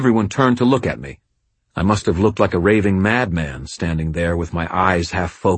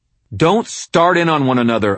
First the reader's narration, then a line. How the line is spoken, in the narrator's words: I snapped